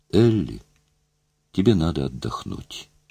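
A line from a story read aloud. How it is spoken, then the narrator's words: Soft. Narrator (Russian): тихо сказала Мэри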